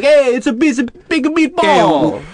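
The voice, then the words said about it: Put-on Italian accent. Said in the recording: “talk like Italian”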